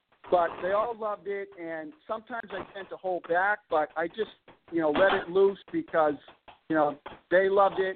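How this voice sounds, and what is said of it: Boston accent. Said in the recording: “everybody makes fun of my Boston accent”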